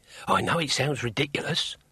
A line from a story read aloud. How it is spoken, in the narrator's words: muttered Hugh